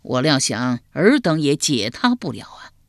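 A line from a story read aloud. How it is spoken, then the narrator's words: Sighing. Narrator (Chinese): 管仲叹了口气道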